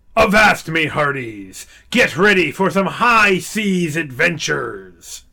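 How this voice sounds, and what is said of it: Pirate sailor voice. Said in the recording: “talk like a sailor”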